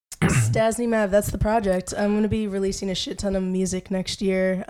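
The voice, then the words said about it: Hoarse, fading voice. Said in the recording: “my voice is really going”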